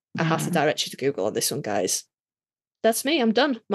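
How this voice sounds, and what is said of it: Tired, fading voice. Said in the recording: “My voice is going out. We've been here for so long.”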